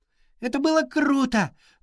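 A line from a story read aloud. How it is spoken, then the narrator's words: Joyful shout. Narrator (Russian): радостно закричала Изи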